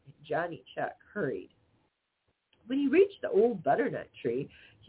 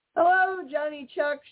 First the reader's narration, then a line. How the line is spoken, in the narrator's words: shouted Peter Rabbit